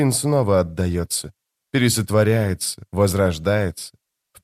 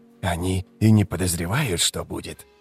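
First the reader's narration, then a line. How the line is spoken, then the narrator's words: Whispered. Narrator (Russian): прошептал Искарал Прыщ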